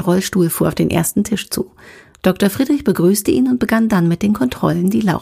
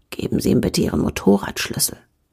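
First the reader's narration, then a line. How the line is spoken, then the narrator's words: Whispered. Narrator (German): flüsterte Dr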